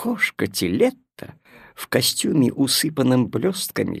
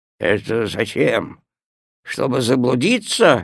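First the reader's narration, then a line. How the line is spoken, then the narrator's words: Displeased grumble. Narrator (Russian): недовольно проворчал Хлеб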